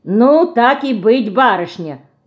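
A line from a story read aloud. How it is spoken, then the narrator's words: Loud beetle voice. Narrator (Russian): Громко говорит жук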